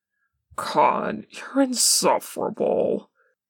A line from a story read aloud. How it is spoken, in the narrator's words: Wynn grumbles